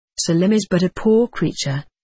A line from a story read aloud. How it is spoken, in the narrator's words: said Mansour